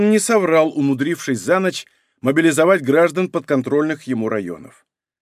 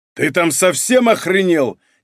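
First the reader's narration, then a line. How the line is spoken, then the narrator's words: Yelled. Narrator (Russian): заорал Борис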